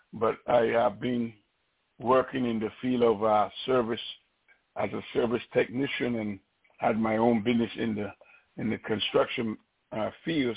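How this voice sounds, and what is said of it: Noticeable accent. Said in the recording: “I have an accent, so please pay attention. I've been living here over 40-plus years, and I still have a lot of my accent. Not as strong as my daughter and my grandsons”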